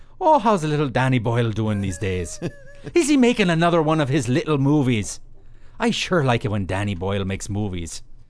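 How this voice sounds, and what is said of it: Bad put-on accent. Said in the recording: “I'm done with my bad ... accent.”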